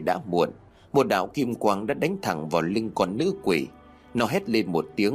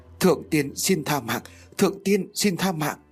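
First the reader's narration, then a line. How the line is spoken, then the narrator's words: Frightened pleading. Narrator (Vietnamese): con nữ quỷ đã bắt đầu sợ hãi, cầu xin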